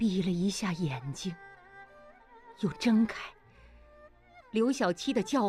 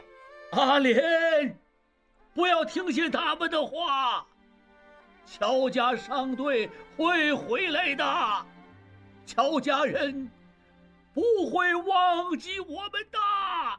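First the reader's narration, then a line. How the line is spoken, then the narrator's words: Grandfather shouting. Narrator (Chinese): 爷爷的叫喊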